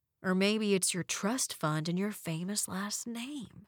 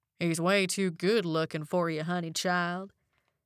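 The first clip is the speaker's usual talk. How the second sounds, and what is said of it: Drawling put-on Southern accent. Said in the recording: “Devin drawled in his best southern accent.”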